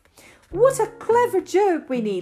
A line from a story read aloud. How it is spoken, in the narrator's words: cried